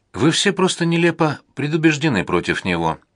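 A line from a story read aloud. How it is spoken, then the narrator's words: Cheerful declaration. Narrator (Russian): весело заявила Сьюзи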